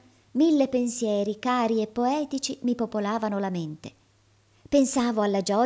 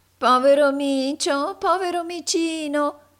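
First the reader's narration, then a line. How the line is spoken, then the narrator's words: Angry nasal shout. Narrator (Italian): gridò tutta irata una vecchia ragazza dalla voce nasale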